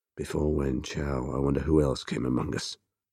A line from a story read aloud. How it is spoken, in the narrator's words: Temujin murmured